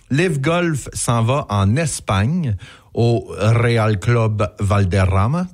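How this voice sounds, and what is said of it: Exaggerated foreign accent on names. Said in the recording (French): “j'ai mis mon accent en plus pour dire ça. ... Oui, tu fais bien ça.”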